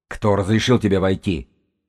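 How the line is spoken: Angry growl. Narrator (Russian): прорычала она в гневе

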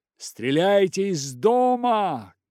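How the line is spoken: Shouting captain. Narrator (Russian): кричал капитан

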